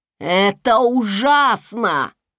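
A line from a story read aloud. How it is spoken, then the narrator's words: Shouting. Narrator (Russian): закричал он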